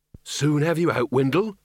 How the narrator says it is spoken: said Red Shoe

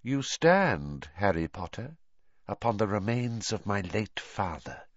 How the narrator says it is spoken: he hissed softly

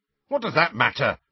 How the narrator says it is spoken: said George hotly

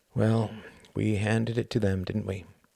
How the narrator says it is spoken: asked Sir Palairet sadly

